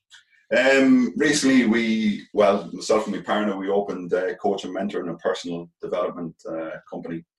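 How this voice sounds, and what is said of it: Irish Galway accent. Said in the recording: “you haven't lost your Galway accent for it... It's still there, yeah, still kicking strong.”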